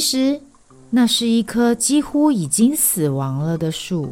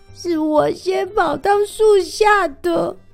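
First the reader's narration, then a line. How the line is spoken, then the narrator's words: Small mouse near tears. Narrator (Chinese): 最小的田鼠……它几乎哭了起来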